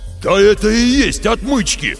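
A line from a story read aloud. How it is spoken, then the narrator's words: Roaring. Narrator (Russian): взревел, придя в себя, Лев Борисович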